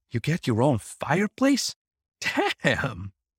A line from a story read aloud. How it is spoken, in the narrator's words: She giggled again